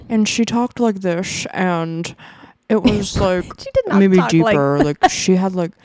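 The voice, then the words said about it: Inaccurate imitation of another person's voice. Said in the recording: “this is an inaccurate Delilah impression ... Needs work.”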